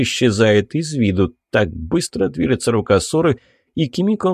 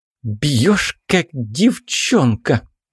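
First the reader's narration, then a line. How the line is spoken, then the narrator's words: Through gritted teeth. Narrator (Russian): говорит она сквозь зубы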